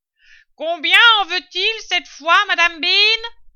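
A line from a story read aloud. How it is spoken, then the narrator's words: Woman yelling. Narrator (French): hurla la femme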